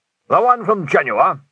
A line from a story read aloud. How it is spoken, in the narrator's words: Winder snorted, which was his attempt at a snigger